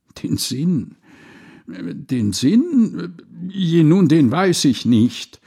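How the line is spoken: Stammering wretch. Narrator (German): stotterte der arme Wicht

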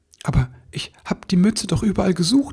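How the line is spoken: Stammering. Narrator (German): stammelte er

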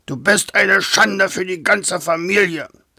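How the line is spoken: Furious shouting. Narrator (German): schrie er mit hochrotem Kopf

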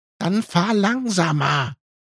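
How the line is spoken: Shrieked. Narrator (German): kreischte Ellie

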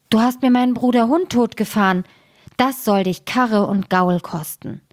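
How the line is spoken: Called out. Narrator (German): rief der Sperling

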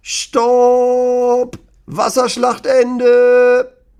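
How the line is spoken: Father shouting very loudly. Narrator (German): ruft Lennys Papa ganz laut

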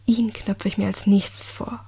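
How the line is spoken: Low murmur. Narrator (German): raunte

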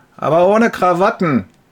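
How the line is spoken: Called out. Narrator (German): Einer ruft

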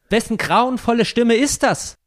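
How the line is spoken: Horrified cry. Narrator (German): fasste ihn Grausen und wildes Entsetzen, und er schrie auf

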